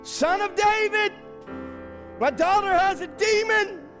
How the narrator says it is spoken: this woman, screaming at Jesus, crying to Jesus

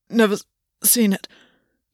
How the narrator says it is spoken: Gwyn gasped

